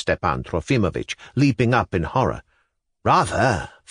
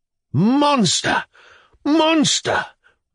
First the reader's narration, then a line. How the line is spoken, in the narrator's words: wailed Stepan Trofimovitch